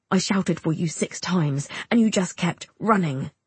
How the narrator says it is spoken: he snaps

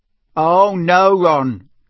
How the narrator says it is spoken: came Fred's voice very sarcastically

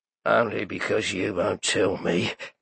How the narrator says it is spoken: muttered the big man, but he dared not say it aloud

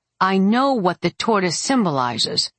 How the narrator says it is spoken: I growled

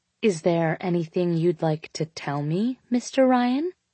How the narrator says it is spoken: she asked sweetly

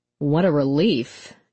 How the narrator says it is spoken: Jack said, his tone sour

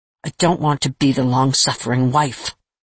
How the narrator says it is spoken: said sharply

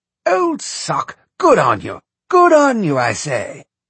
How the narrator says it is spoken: Charles exclaimed happily

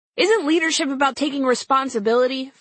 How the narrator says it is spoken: Fox News' Ed Henry yelled with the grace of a livestock auctioneer

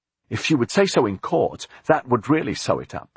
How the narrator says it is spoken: Jonathan said eagerly

